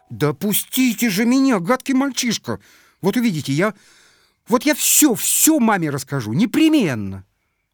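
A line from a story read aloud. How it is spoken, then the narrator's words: Suddenly angry exclamation. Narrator (Russian): она воскликнула неожиданно сердито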